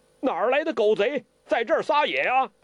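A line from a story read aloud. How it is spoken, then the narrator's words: Shout from darkness. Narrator (Chinese): 黑暗中一个人叫道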